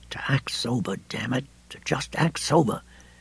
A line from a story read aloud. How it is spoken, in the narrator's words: they began to admonish each other in aromatic whispers